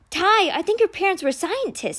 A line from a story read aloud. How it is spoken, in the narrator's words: Sticky exclaimed